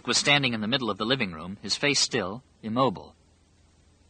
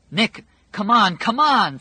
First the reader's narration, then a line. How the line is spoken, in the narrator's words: Fran cried